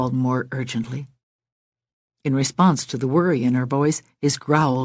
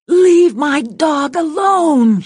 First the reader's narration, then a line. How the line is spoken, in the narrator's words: she shouted